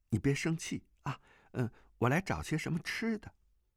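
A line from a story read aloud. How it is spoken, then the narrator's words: Gentle, soothing. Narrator (Chinese): 不禁暗暗好笑，便柔声安慰道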